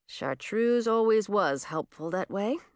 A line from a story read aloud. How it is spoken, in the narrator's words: Emma muttered